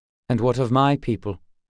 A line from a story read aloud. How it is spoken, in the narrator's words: said Gar